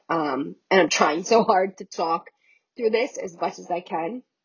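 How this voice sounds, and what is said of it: Sick voice, cracking, dry throat. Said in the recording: “I'm a little sick, so that's why my voice keeps on cracking out ... I keep on getting a dry throat ... I hope I don't sound terrible”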